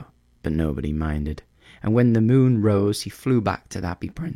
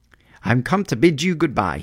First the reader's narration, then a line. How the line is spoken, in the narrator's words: he cried